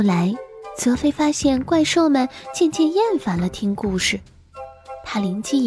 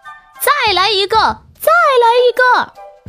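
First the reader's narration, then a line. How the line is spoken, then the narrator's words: Group shouting loudly. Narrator (Chinese): 波罗莫西和小妖精们都会大喊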